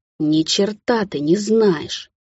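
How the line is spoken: Angry hiss. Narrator (Russian): Зашипела я зло

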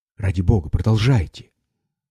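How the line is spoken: Breathless, barely audible, emphatic. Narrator (Russian): Она вздохнула так глубоко и прерывисто, как будто ей не хватало воздуха, и кончила еле слышно, но выразительно оттеняя слова

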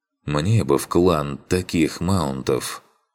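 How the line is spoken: Sighed. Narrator (Russian): вздохнул я

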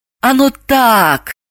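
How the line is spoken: Sighing. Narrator (Russian): вздохнула Далила

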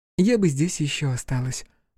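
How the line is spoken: Sighing. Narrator (Russian): вздохнула Юки

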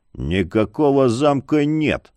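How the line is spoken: Low muffled growl. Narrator (Russian): глухо прорычал он

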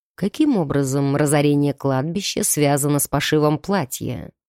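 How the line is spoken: Dry clarifying question. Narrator (Russian): сухо уточнил фон Грейслинг

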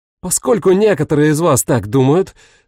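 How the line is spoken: Barking. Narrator (Russian): рявкнула она

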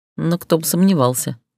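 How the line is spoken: Mutter. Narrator (Russian): пробормотала медноволосая

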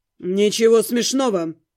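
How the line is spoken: Said coldly. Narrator (Russian): сказал холодно

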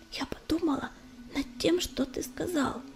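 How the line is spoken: Whispered. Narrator (Russian): прошептала Листочка

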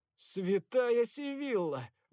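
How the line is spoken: Exclaimed. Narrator (Russian): воскликнул я

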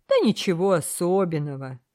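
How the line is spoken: Laughing. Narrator (Russian): рассмеялся моряк

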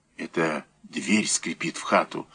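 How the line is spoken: Whisper. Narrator (Russian): сказал председатель шепотом

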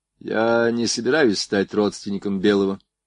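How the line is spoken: Dry reply, ensign. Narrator (Russian): сухо ответил прапорщик

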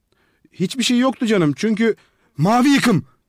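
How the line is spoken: Shouting. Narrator (Turkish): diye bağırdı bakteriyolog

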